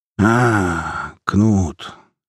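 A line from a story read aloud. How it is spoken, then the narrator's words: Listless drawl. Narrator (Russian): вяло протянул он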